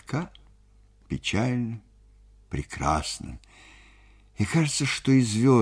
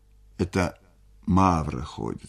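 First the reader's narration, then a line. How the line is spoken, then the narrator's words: Plain. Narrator (Russian): сказал Буркин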